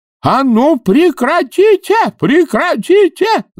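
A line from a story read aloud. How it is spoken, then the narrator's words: Yelling. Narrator (Russian): завопил он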